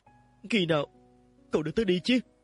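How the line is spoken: Trembling soft question. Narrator (Vietnamese): Ông Dương run rẩy, nhẹ giọng hỏi

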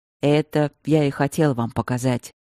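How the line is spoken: Heavy mutter. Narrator (Russian): тяжело буркнул Стрелковский

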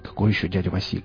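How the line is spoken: Mumbled. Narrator (Russian): пробормотал Рамир

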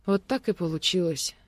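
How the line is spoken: Quiet reply. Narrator (Russian): тихо ответила Ольга

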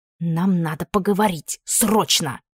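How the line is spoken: Accusing hiss. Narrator (Russian): прошипела обличительно

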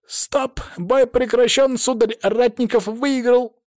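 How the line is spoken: Loud, excited. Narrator (Russian): громко выдал импровизированный рефери, восторженно

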